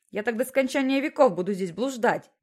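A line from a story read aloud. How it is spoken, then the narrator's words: Shouting. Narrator (Russian): кричал он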